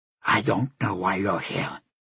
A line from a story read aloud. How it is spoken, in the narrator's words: he said quietly